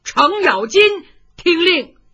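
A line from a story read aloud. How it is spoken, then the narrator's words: Shouting. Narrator (Chinese): 徐茂公喊了一嗓子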